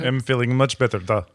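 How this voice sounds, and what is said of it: Exaggerated old-fashioned Russian accent. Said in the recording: “I'm doing the entire show in Russian accent from 1960s”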